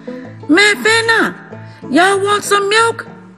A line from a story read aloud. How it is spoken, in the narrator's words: would holler across the fence